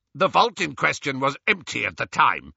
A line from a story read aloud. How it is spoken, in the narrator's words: snapped the goblin